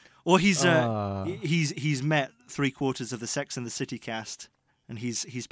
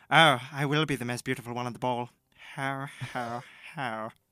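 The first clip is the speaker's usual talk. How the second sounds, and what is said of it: Arch, haughty imitated voice. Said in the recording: “I could make him sound really arch ... your impression”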